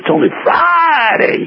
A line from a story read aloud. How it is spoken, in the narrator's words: he yelled